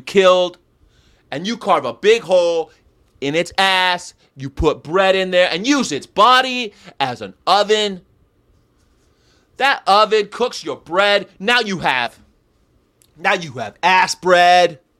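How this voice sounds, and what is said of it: Imitates another person's voice. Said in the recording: “my Gary Yourofsky impersonation.”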